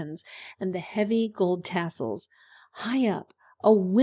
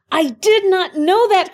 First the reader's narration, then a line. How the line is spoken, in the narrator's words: cried the emperor